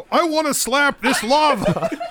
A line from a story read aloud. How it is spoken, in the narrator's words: It yells out